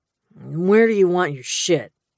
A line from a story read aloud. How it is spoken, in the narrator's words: growled